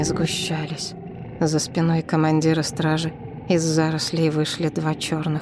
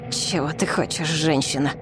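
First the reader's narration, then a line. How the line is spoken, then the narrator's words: Hissed. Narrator (Russian): прошипел Пасаи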